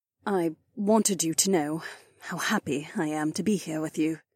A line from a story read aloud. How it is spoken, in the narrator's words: Cat murmured quietly